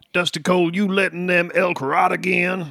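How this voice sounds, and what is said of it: Put-on rural Idaho/Southern accent. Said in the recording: “you have a beautiful Idaho accent ... we're in the deep south now”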